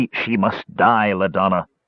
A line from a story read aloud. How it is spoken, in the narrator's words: Parsalian snarled